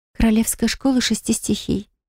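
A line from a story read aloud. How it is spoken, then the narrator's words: Quiet answer. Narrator (Russian): тихо ответила девушка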